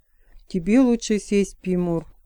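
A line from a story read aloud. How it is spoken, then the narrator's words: Calm remark. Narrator (Russian): спокойно заметила Шара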